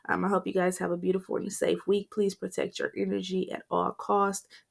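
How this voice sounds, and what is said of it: Shaky, unwell-sounding voice. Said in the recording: “I was feeling a little under under the weather ... my voice was a little shaky”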